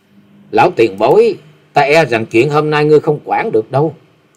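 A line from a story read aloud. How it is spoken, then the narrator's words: Young woman, cold. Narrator (Vietnamese): Hắc y thiếu nữ lạnh lùng nói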